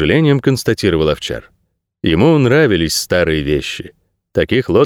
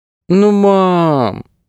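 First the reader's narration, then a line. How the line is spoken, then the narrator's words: Girl drawling playfully. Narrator (Russian): протянула девочка шутливо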